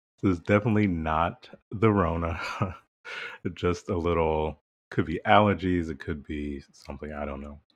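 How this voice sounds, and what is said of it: Strained throat, slightly rough voice. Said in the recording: “my voice is a bit, like a little throat situation going on”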